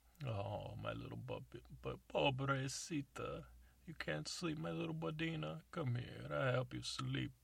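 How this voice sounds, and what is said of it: Put-on Italian accent. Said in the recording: “Even though it's in Spanish, I'm using an Italian accent.”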